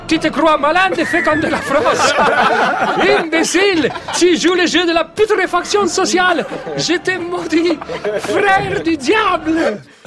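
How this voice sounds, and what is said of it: Put-on Uruguayan accent. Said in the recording (French): “Très belle imitation, ... magnifique! Ah, je mets très uruguayen.”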